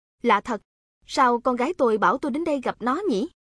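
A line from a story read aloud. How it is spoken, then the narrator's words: Brightening, smiling. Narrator (Vietnamese): Mắt ông ta sáng lên, ông mỉm cười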